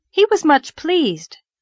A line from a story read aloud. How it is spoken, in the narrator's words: said Anne brightly